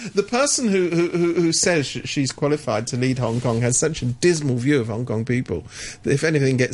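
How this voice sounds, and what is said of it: Usual voice. Nothing is said of it.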